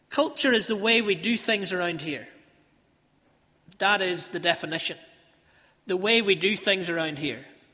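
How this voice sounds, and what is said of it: Northern Irish Ballymena accent. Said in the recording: “the way I say them with a Ballymena accent”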